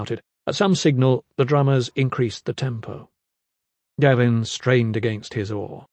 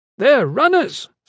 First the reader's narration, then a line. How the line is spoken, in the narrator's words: Strap shouted gleefully